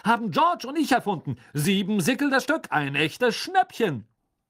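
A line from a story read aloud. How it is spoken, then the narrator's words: Loud announcement to crowd. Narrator (German): verkündete Fred laut der aufgeregten Schülerschar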